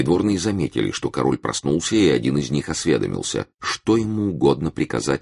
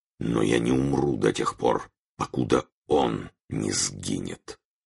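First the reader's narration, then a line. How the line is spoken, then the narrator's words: Barely audible whisper. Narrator (Russian): И он прошептал едва слышным голосом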